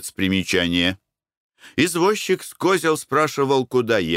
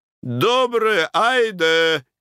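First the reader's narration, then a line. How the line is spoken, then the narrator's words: Group shout. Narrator (Russian): крикнули войники и бараньи шапки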